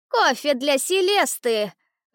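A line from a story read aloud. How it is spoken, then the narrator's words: Shouted. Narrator (Russian): выкрикнул он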